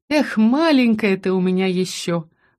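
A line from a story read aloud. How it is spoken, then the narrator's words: Sighing. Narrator (Russian): вздохнула Тин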